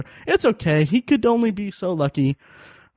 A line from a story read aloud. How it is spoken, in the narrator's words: just kind of laughed, and I told her